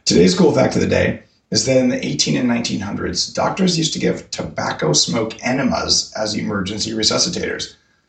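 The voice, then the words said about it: Hoarse voice from laryngitis. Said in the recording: “I have a little bit of laryngitis ... dried myself out”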